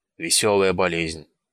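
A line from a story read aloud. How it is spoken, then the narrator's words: Grumbled. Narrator (Russian): проворчал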